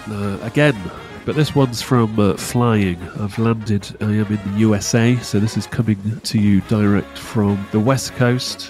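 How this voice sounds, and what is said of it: Congested voice with a cold. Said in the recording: “I've got a cold.”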